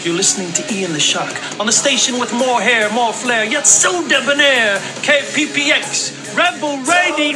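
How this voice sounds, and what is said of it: Exaggerated radio DJ voice. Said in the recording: “that was my best radio voice”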